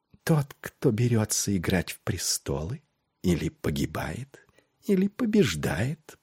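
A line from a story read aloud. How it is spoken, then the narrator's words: Whisper. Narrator (Russian): прошептала она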